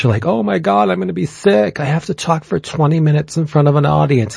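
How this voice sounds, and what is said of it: Imitates a panicky young person. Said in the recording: “That is an awesome impersonation of a millennial.”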